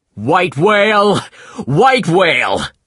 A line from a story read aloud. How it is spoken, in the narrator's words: the captain shouted